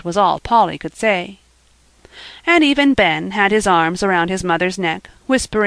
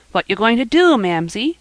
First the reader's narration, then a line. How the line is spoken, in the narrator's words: asked Joel quickly